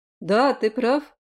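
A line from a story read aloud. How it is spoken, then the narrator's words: Cheerful, smiling. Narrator (Russian): улыбнулся весело приспешник герцога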